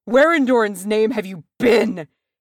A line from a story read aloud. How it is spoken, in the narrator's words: He roared